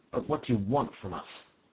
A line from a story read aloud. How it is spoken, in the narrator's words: He exclaimed in a deadened voice